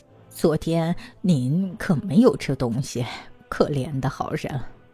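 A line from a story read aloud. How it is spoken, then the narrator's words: Sighing exclamation. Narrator (Chinese): 感叹说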